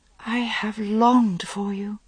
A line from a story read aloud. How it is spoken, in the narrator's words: she whispered, and was shocked at the longing in her voice